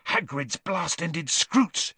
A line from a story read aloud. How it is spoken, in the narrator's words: he hissed